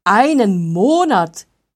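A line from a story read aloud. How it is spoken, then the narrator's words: Horrified cry. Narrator (German): rief Wolfgang entsetzt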